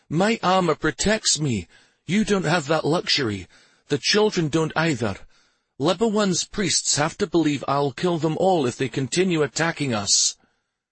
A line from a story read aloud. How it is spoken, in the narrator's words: his voice took on an almost pleading tone